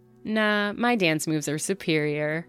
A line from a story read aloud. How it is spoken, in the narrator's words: her friend replied